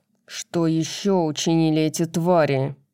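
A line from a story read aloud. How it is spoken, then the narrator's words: Growl. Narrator (Russian): прорычал Тарион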